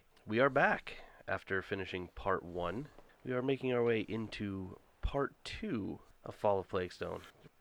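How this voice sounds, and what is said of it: Voice slightly off from cold. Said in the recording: “I am still getting over a cold, so my voice is a little iffy”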